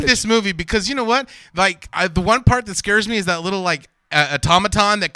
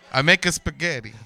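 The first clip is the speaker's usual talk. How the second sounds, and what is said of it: Poor put-on Italian accent. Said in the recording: “Can you do a good Italian accent? ... Can you do it without offending our Italian listenership? ... Okay, the answer is no on that one.”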